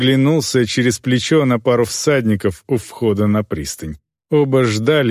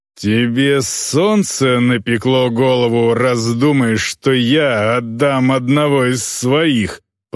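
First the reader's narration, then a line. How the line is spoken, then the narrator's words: Growling. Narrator (Russian): прорычал Глорнир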